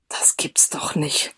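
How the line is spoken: Worried whispered grumble. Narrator (German): grummelte er im Flüsterton … besorgt

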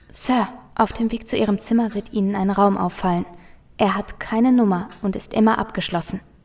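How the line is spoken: Lowered voice. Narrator (German): sagte mit gesenkter Stimme

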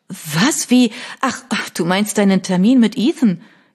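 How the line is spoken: Relieved laughing. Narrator (German): Kate lachte befreit

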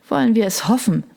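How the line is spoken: Sighing. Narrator (German): seufzte Sassa

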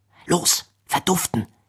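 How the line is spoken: Cold, croaking voice. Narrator (German): krächzte Pfarrer Magenstock mit bemerkenswerter Kaltschnäuzigkeit

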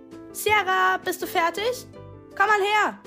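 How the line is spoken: Mother calling from another room. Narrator (German): rief ihre Mutter sie aus dem ehemaligen Badezimmer zu sich

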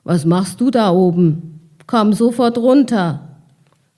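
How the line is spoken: Calling out. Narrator (German): rief einer

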